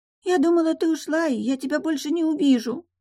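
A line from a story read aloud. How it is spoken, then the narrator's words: Whiny whimper. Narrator (Russian): прохныкала Софи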